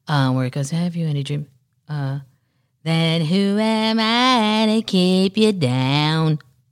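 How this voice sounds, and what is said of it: Imitates another person's voice. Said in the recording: “my Stevie impression”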